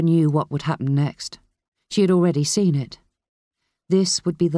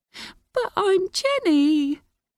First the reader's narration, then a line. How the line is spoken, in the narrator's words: the woman cried more desperately